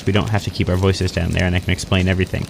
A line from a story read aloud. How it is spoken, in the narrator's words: he said quietly and quickly